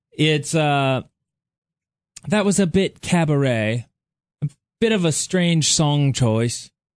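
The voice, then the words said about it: Bad British accent, Simon Cowell impression. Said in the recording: “Simon Cowell being on American Idol ... Your British accent sucks.”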